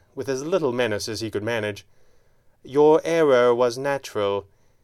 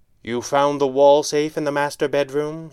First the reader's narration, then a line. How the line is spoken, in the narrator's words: he snapped